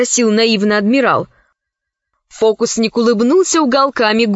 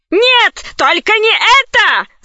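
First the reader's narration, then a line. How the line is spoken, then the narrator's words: Terrified shout. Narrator (Russian): закричал в ужасе адмирал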